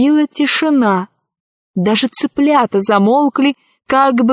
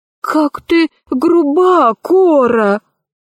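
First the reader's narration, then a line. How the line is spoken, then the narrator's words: Sighing rooster. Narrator (Russian): вздохнул петушок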